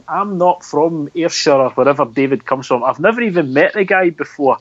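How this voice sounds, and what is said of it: Central Scottish accent. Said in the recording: “I quite clearly have got a sort of centralised accent.”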